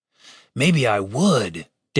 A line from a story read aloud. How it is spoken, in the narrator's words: Dave hissed back at him